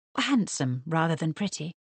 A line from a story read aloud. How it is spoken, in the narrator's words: murmured Mary